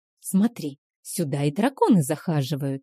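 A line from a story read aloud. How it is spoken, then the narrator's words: Whisper. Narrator (Russian): шепнула мне Стейси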